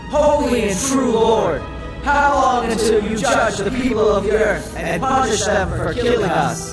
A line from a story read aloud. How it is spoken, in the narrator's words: These souls shouted in a loud voice